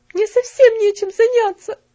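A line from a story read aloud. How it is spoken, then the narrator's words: Tearful. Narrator (Russian): сказала сквозь слезы Мэри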